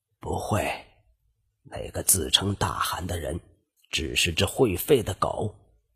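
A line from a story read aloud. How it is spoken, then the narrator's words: Faint breathy whisper. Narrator (Chinese): 为防隔墙有耳，他将声音压到不能再低，只留下微弱的气音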